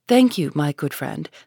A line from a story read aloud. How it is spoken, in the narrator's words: said the minister gravely, but startled at heart